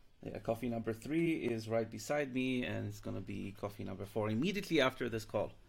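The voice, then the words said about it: Rusty, deep morning voice. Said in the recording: “Sorry for my rusty morning voice. I'm not a morning person. ... it sounds like a bit like a radio voice”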